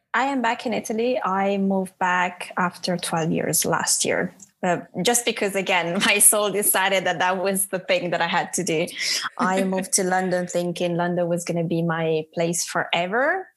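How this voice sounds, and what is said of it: Noticeable foreign accent. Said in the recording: “you clearly have an accent.”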